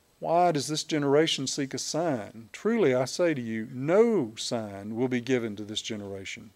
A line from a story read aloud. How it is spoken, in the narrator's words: he sighed deeply in his spirit and said